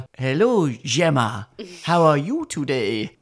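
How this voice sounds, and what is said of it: Mock French accent in English. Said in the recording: “speaks with a French accent ... where he just speaks normally but puts on a bit of a”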